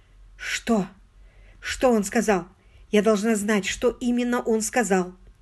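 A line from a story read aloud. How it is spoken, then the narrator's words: Muffled, forced out. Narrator (Russian): миссис Эшли, зажимая рукой рот, выдавила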